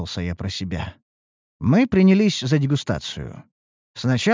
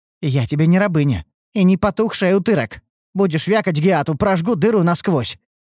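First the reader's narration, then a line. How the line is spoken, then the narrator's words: Snapped back. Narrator (Russian): огрызнулась рыжая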